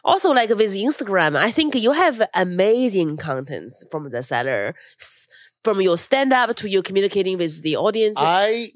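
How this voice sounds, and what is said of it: Chinese-accented English. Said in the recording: “With your accent? ... You have a different Chinese accent? ... I like my accent”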